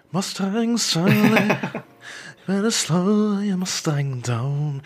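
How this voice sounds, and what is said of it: Imitates another person's voice, sung. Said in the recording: “It's not very good of a ... good Morrissey impersonation”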